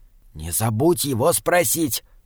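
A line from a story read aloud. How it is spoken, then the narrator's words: Whisper. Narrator (Russian): прошептал Джеремия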